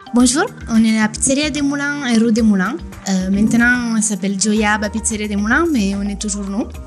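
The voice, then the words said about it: Slight Italian accent in French. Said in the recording (French): “Avec son petit accent italien qui nous fait fondre nous les Français”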